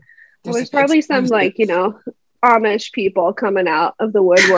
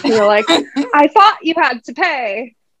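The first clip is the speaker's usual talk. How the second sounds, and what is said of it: Put-on British accent. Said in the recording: “they have, like, a British accent”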